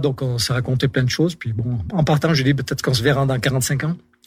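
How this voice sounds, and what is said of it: Strong regional French accent. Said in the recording (French): “vous avez vachement l'accent du Royan”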